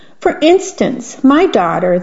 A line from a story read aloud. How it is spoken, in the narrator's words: the miller replied